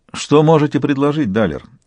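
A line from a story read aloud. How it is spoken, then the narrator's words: Haughty lordly voice. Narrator (Russian): тем же барским голосом осведомился Сварог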